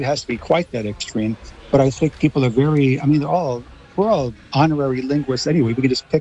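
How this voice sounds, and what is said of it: Usual voice. Nothing is said of it.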